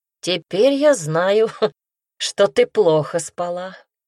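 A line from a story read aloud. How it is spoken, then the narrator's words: Laughing. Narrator (Russian): рассмеялся Пайр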